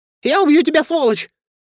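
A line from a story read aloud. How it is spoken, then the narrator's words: Shrill falsetto scream. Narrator (Russian): закричал братец тонким фальцетом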